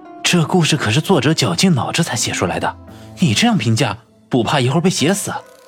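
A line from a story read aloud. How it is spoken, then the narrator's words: Whisper in ear. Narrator (Chinese): 方寸附着云峰的耳朵轻声道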